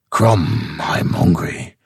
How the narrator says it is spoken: grunted the Cimmerian

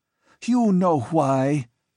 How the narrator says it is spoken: she cried, knowing the futility of trying to dissemble

